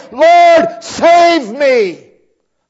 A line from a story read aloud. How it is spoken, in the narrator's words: As soon as he began to sink, as soon as he felt himself going under, he cried